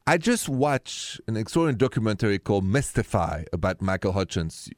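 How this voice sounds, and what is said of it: French accent. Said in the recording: “The accent is French.”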